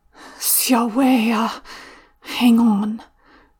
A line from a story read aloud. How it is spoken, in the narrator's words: Zhao Yunlan murmurs